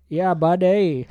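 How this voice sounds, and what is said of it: Put-on Canadian accent, Indian-tinged. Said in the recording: “that subtle Canadian accent. ... That's just like if you mixed in like an Indian accent.”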